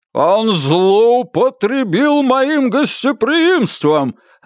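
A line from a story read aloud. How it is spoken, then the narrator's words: Barked. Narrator (Russian): рявкнул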